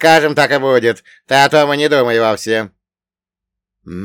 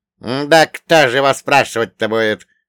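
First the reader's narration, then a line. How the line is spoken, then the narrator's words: Scoffing snort. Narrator (Russian): хмыкнул Акинфей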